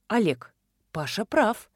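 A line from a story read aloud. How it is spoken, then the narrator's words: Soft. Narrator (Russian): мягко сказала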